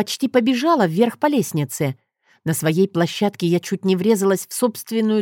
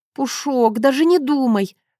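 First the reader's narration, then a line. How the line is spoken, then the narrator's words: Groaning female voice. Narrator (Russian): простонала я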